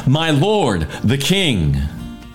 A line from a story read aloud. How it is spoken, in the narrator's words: David shouted after him